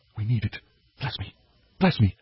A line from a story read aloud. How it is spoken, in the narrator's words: whispered silently